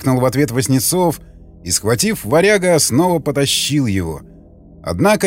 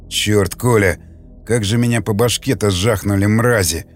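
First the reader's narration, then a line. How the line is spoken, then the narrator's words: Grumbling. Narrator (Russian): проворчал он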